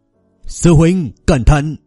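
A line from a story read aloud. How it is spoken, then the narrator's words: Loud warning shout. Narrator (Vietnamese): Chủ tịch câu lạc bộ taekwondo hét lớn một tiếng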